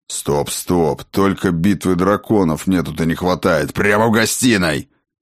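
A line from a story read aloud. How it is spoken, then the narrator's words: Growled. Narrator (Russian): рыкнул Сфайрат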